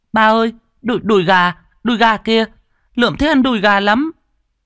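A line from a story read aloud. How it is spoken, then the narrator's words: Child's happy shout. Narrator (Vietnamese): Thằng bé hét lên sung sướng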